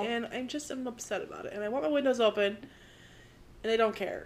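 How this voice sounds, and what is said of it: Congested voice from a cold. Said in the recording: “I do have a bit of a cold... Sorry if I sound weird.”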